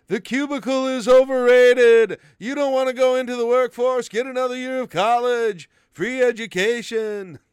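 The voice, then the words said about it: Imitates another person's voice. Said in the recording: “That's my imitation of him.”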